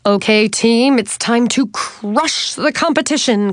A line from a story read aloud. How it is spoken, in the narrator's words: Coach Debbie shouted